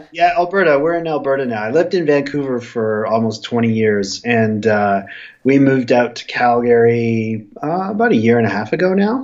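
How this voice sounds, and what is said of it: Stuffy, congested voice. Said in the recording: “I sound a little stuffy,... it's because we got hit by a really bad flu... I do sound a little stuffy as a result of it.”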